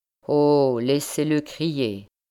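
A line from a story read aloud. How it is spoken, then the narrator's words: Plain. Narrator (French): lui dit Philippe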